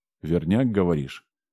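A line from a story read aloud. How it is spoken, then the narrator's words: Skeptical snort. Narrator (Russian): Главный скептически хмыкнул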